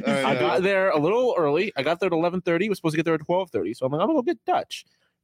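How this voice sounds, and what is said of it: Buffalo accent creeping in. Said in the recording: “He's slipping into his Buffalo accent.”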